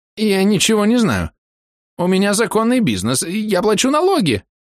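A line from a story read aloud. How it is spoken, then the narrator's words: Shrill squeal. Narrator (Russian): взвизгнул Непись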